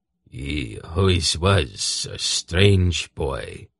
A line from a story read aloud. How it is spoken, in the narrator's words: Kohag mused in his deep, quiet voice